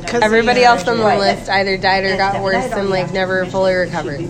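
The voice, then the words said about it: Hoarse, worn-out voice. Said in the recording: “my voice is gone”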